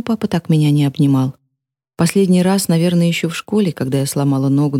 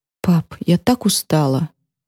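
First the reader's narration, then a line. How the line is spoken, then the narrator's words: Forced out between sobs. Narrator (Russian): между всхлипами выдавила я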